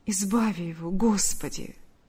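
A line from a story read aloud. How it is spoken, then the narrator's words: Whisper. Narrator (Russian): прошептала Ульяна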